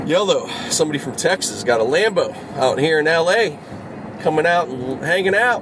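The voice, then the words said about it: Put-on Texas accent. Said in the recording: “my little Texas accent... That's a fun accent... I don't know if I'm doing it really well”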